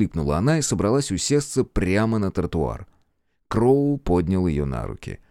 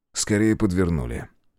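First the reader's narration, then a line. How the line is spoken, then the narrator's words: Calm remark. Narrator (Russian): спокойно заметил Кроу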